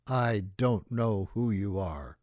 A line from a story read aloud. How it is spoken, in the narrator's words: growled at me